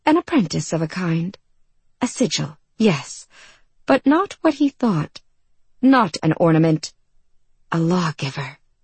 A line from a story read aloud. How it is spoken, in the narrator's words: she breathed